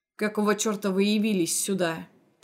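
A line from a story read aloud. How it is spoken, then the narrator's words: Growl through teeth. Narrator (Russian): прорычал сквозь зубы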